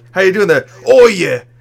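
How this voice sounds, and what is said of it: Put-on Cockney accent. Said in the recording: “has like a Cockney accent”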